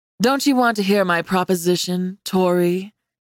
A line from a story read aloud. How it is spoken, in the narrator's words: Caleb asked, his voice caressing my name